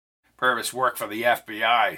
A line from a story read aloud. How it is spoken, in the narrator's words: said Melvin